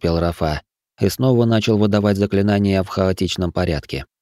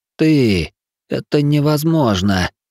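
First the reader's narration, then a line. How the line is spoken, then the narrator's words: Hoarse wheeze. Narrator (Russian): просипел он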